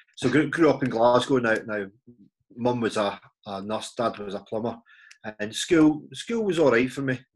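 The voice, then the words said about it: Scottish Glaswegian accent. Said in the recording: “as you can tell from my accent, you know, originally from Scotland, Glasgow ... I'll try and keep my accent as English as possible, try and enunciate my words”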